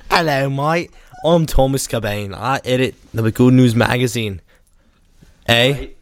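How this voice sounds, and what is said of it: Put-on Australian accent. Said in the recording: “You're Australian.”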